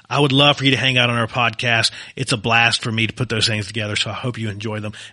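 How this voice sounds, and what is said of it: Soothing Southwestern Virginia accent. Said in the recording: “soothing Virginian, former Virginian ... soothing Southwestern Virginia mixed with Southwestern U.S. now accent”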